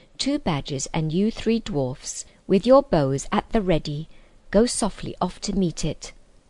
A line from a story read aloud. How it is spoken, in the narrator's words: said Caspian